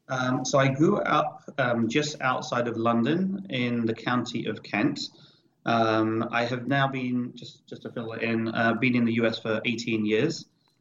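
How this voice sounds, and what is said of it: Non-American accent. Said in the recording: “you are not from the States based on your accent, unless you're just a really talented actor”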